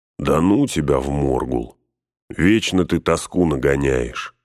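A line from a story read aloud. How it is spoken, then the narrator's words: Plain. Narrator (Russian): сказал Шаград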